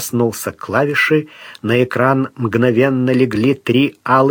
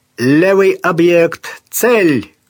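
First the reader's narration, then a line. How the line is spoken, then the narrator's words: Full-voiced shout. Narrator (Russian): крикнул Сварог в полный голос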